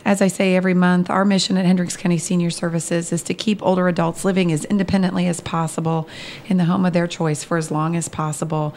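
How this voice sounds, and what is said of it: Hoarse, slightly strained voice. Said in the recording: “please apologize for the little bit of laryngitis I have”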